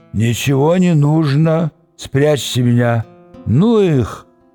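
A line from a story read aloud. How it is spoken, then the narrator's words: Hoarse mumbling. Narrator (Russian): Доктор Эр-Квадриго, лежа головой на скатерти, хрипло бормотал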